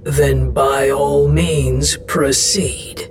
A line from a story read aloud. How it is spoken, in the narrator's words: Estros growled